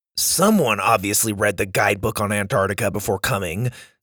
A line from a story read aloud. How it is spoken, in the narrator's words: Sawyer scoffed